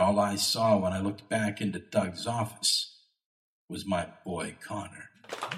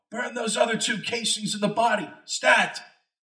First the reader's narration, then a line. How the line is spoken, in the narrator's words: I heard Doug yell